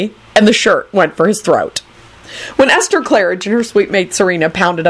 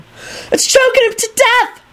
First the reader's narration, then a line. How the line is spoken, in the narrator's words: a first-year screamed and burst into terrified tears